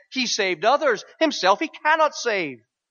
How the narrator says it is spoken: mocking with scribes and elders, said

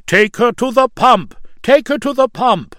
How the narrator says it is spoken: Some cried out

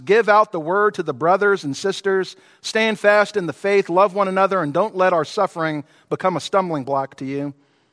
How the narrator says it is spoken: Perpetua called out to some grieving friends

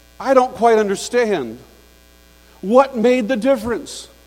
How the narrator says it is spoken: someone cried out

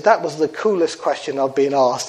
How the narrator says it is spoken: he said

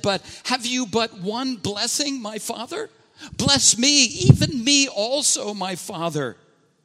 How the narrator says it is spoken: Esau cried out to his father and he said

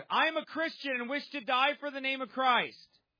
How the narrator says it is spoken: Euplius cried aloud

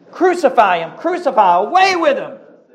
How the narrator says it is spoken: were shouting out

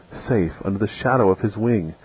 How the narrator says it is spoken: Another Christian breathed out her last

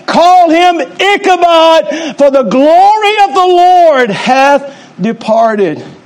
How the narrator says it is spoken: as she cried out in death, she said

